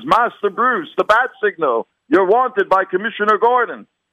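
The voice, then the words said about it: Lousy British accent as Alfred. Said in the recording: “You like my lousy British accent?”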